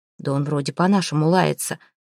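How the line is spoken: Hesitant mumble. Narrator (Russian): пробормотал один из русов после некоторого замешательства

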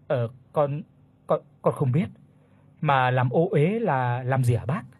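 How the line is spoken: Plain question. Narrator (Vietnamese): Bác Bình hỏi

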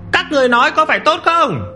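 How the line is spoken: Loud rousing shout. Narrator (Vietnamese): Để mỗi người dân Giang Thành phấn chấn lên, Trần quản sự hét lớn

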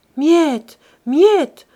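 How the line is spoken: Pleading. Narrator (French): implora Silver

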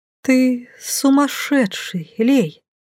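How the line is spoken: Whispered. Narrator (Russian): прошептала я

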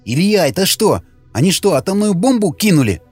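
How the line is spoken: Agitated rapid speech. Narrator (Russian): взволнованно и быстро заговорил Вячеслав

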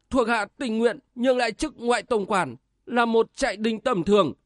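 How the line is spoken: Pleading. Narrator (Vietnamese): Thích Đại Thành van xin

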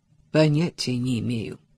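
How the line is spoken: Gloomy. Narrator (Russian): мрачно ответил Адам

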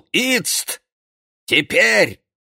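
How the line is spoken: Shouted. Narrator (Russian): он ... крикнул

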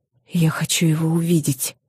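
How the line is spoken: Whisper. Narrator (Russian): прошептала я

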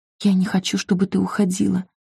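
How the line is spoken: Pleading whisper. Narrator (Russian): прошептала Салли

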